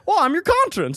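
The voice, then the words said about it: Imitates another person's voice. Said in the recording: “Doing the best Jimmy Stewart impression.”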